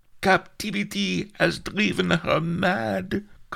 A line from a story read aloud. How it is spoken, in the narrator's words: cried Mellifluous